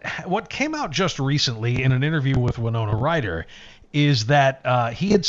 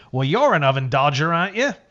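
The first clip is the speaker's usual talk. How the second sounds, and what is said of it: Poor put-on Australian accent. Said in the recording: “that's a terrible Australian accent”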